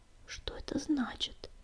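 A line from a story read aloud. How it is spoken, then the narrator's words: Whisper. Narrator (Russian): прошептал Огнегрив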